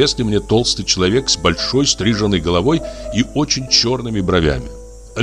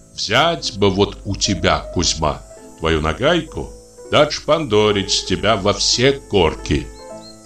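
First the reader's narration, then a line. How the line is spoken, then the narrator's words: Measured soft imposing bass. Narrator (Russian): говорил ему с расстановкой своим внушительным и мягким баском управляющий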